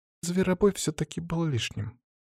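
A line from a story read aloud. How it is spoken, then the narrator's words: Sighing. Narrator (Russian): вздохнула Краснова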